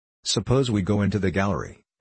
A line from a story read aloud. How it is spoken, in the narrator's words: said Paul Overt